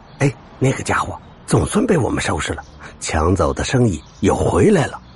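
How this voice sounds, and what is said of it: Quiet, hushed voice. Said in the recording (Chinese): “听到不远处有几个人小声的说”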